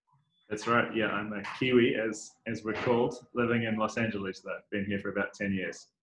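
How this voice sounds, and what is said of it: New Zealand accent. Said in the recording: “I love that accent... That's the New Zealand accent”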